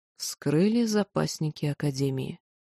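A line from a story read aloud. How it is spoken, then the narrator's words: Barely audible voice. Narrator (Russian): произнесла едва слышно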